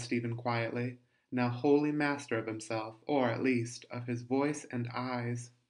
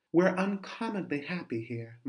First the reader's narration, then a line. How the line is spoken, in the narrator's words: Mark added quietly